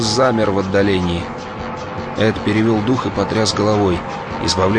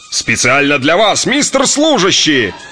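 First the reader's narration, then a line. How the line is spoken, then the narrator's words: Blaring, roaring loudly. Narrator (Russian): Заорало, завыло, загрохотало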